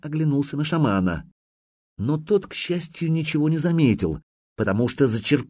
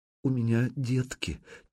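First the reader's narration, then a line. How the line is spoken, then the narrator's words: Barely audible mutter. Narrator (Russian): чуть слышно пробормотала женщина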